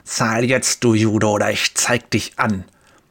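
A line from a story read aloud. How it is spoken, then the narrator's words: Spitting hiss. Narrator (German): Speichel sprüht, als er zischt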